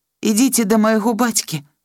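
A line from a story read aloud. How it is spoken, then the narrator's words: Plain. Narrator (Belarusian): сказаў татачка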